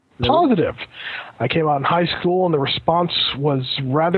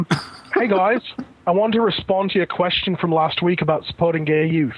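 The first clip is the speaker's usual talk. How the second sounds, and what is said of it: Put-on Australian accent. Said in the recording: “no more Aussie accents ... Let the Australians do the Aussie accent.”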